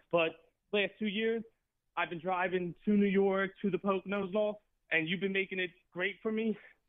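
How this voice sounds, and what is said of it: Out of breath, panting speech. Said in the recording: “out of breath. I was just walking up a hill”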